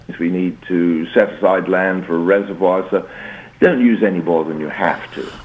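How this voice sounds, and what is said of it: American accent. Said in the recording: “I'm detecting an accent. ... You've got a stronger American accent than she has.”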